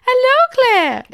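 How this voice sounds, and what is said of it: High-pitched imitated voice. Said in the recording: “she's got this really high voice.”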